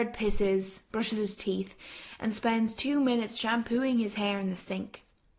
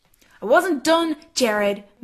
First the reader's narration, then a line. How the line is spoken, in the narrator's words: Megan snaps